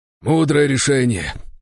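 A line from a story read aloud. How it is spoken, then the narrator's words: Breathless exhale. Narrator (Russian): выдохнул Григорий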